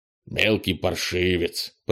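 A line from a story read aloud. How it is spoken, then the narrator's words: Grumbling. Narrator (Russian): проворчал Крис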